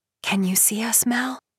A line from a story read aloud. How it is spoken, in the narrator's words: she whispers